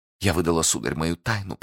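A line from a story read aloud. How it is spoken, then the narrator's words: Exhausted low whisper. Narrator (Russian): прошептала, понижая голос и в изнеможении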